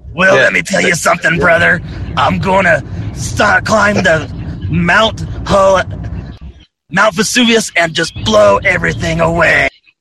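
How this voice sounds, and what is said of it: Gruff pro-wrestler style voice. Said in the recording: “give me your WWE accent ... There we go.”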